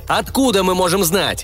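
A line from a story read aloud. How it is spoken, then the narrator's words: Shout. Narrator (Russian): крикнул Трэвис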